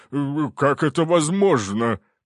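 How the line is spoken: Babbling. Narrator (Russian): пролепетал он

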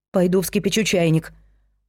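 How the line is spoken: Muttering. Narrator (Russian): пробормотала Дафна

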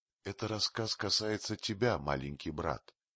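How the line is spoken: Whisper. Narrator (Russian): шепнула Багира Маугли

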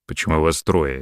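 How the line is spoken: Barking. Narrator (Russian): рявкнул Антон

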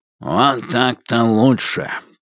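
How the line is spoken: Grumble. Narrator (Russian): проворчал Брежнев

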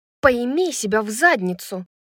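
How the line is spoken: Snapping. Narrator (Russian): огрызнулась Брайс

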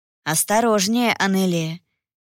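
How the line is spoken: Mentor's gentle warning. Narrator (Russian): мягко предостерег наставник

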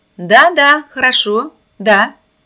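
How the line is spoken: Shouting into phone. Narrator (Russian): кричала она в телефонную трубку

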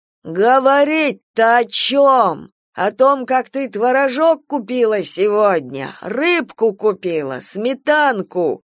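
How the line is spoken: Furious yelling. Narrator (Russian): Орал Саня, и пена выступала у него на губах от ярости

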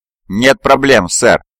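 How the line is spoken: Cheerful reply. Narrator (Russian): бодро отозвался Сергей

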